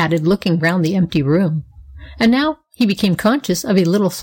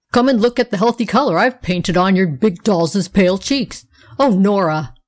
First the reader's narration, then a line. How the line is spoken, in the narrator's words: Wilfred exclaiming